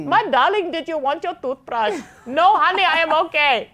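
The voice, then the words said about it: Put-on American or Indian accent. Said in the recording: “whenever I'm doing any voice or any past event, I go American or Indian ... I just go accents”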